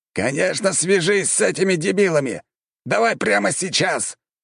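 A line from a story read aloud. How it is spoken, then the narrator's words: Commander roaring. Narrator (Russian): взревел командующий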